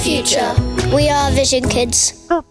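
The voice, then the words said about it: Imitates a show's opening announcer voice. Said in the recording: “my impression of the start of Odyssey”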